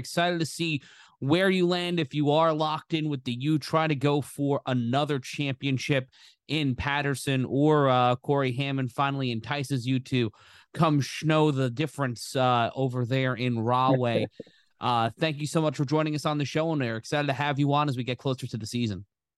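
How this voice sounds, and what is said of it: Sports radio announcer voice. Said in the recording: “my sports radio guy impression”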